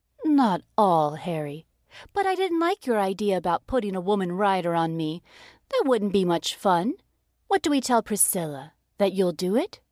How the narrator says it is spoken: sighed

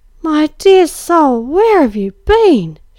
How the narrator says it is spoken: she cried

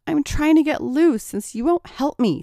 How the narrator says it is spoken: snapped Tracy

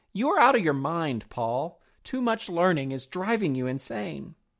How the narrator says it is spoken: Festus exclaimed

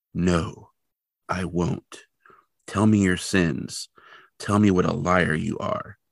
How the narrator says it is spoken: the man, still rather quietly, replies

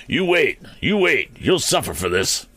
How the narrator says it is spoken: he spluttered, as soon as he could free his mouth from the trickling fluid

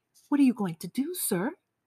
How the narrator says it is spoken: I asked meekly

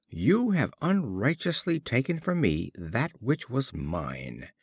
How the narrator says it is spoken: The wolf, standing at a safe distance, exclaimed

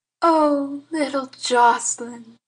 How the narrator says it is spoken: breathed Auntie Nan in rapture

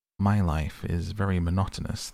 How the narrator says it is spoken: the fox said

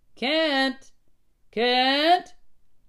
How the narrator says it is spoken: a brakeman was yelling

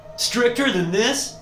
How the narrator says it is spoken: I say, nearly shouting

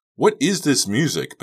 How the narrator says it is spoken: Becca shouted back

